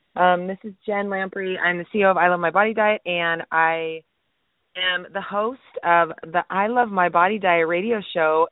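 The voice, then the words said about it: Creaky, cracking sick voice. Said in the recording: “Sorry about my voice. ... I am sick a little bit, so I'm going to be creaking and cracking and whatever that is, crack-a-lacking.”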